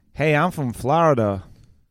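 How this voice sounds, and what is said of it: Put-on American Florida accent. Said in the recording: “I'm gonna do an American accent... It was a very specific accent.”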